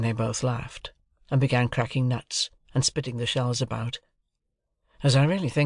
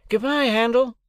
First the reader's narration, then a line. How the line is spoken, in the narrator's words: Herbert called out